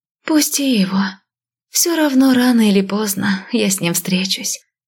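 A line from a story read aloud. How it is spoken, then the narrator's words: Sad sigh. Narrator (Russian): грустно вздохнула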